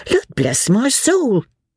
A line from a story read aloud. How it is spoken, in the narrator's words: exclaimed Sally, with a good-humoured laugh